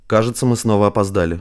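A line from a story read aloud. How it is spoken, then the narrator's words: Wry snort. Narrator (Russian): хмыкнул Самандар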